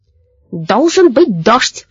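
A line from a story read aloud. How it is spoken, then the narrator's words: Angry croaking. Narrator (Russian): каркал он сердито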